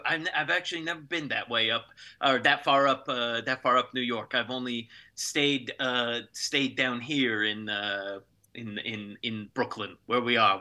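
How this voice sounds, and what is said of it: Brooklyn New York accent. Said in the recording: “I'm a native New Yorker and a native Brooklyner. You can tell by my accent.”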